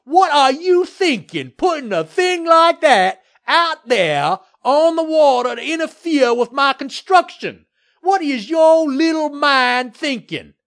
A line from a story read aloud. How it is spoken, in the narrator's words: Murtaugh screamed at Mayor Williams